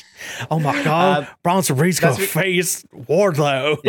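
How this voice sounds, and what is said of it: Imitates another person's voice. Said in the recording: “best unintentional JR impersonation”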